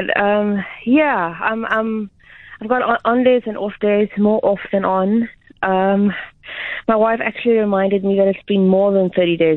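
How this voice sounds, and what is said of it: Out of breath. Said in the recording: “I get out of breath really quickly, so that's why I'm out of breath now”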